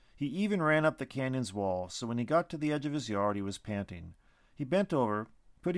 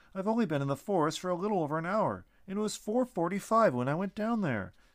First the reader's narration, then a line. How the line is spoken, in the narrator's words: he pleaded